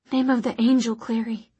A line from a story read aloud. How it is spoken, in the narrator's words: he breathed